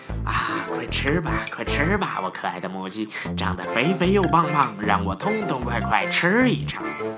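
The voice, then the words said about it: Quiet muttering chant. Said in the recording (Chinese): “狼大叔每天都这样小声念叨着。”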